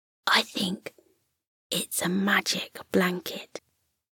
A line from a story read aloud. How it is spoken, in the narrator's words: The rabbit whispered